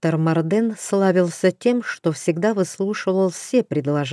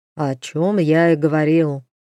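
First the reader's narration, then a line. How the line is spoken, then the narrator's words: Gloomy grumble. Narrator (Russian): мрачно буркнул Зардан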